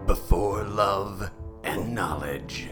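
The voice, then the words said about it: Pablo Francisco's dramatic movie-trailer voice. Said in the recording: “We all did a reasonable impersonation of Pablo Francisco impersonating movie impersonators.”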